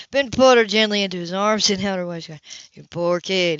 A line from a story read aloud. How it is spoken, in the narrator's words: he sighed